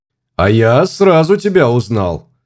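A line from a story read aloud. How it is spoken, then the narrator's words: Loud and cheerful. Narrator (Russian): сказал я громко и бодро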